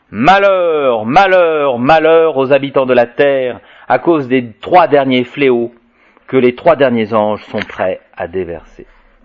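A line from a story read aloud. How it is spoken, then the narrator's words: Eagle's loud cry. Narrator (French): un aigle, criant d'une grande voix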